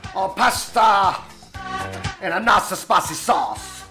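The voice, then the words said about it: Poor put-on Italian accent. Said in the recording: “My best Italian accent. Rubbish, wasn't it? It was a rubbish!”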